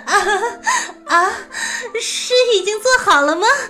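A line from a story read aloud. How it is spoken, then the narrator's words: Startled, then laughing. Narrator (Chinese): 太平公主闻言一愣，笑了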